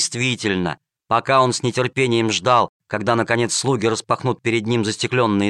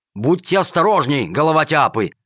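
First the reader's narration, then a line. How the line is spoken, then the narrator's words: Shouted. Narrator (Russian): крикнул Джакомон своим слугам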